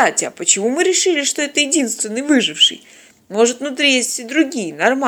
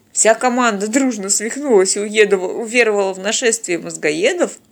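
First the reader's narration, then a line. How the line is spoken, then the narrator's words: Snorting. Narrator (Russian): хмыкнул Теодор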